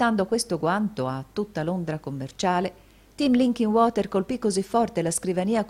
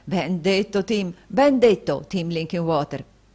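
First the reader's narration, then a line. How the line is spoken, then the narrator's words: Joyful exclamation. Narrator (Italian): esclamò il fratello Carlo, appena meno lieto dello stesso Tim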